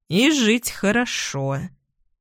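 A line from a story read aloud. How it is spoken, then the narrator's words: Gloomy. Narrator (Russian): мрачно добавляет Штерн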